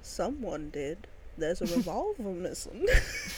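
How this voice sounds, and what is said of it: Old-timey prospector accent. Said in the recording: “you did it with an accent, so it's better... He sounds like such an old-timey prospector.”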